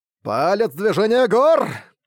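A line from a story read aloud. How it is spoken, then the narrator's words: Laughing. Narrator (Russian): Рассмеявшись, Сытунань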